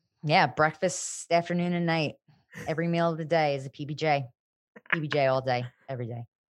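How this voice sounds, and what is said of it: Strong New Jersey accent. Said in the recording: “Your accent is so strong today. ... New Jersey, baby ... The voice of the tri-state area.”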